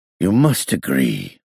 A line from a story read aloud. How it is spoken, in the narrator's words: DuBarnstoker murmured